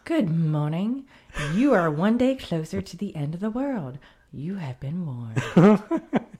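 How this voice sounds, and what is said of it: Stewardess announcement voice. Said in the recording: “the steward voice is back. Steward. The stewardess ... Say this one in your stewardess voice.”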